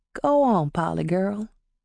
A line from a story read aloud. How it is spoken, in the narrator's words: Nathan said gently